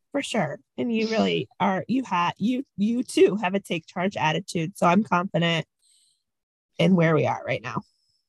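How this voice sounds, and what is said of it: Lower, sore-throated voice. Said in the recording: “somebody who has a little bit of a sore throat ... If my voice is a couple decibels lower ... it's not just a sore throat. It's just a little bit of like a little cold.”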